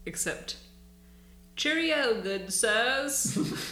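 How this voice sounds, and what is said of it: Put-on British accent. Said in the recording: “That's my British accent. And it is spot on”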